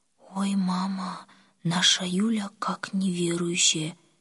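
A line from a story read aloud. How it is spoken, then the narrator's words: Said quietly. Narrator (Russian): тихо сказала Оля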